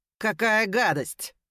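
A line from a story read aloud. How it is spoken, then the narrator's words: Careless laugh. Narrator (Russian): Он небрежно рассмеялся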